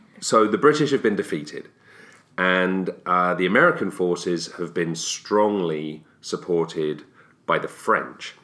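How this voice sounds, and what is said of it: English accent. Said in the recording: “James has an American accent, and I don't. ... I have an English accent.”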